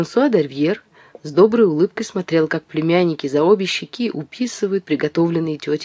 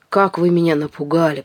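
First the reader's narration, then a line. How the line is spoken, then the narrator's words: Farmer woman grumbling, smiling. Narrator (Russian): проворчала, улыбаясь фермерша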